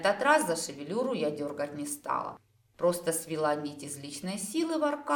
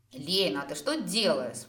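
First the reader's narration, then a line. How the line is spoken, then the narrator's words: Indignant hiss. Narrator (Russian): возмущенно зашипел творец жизни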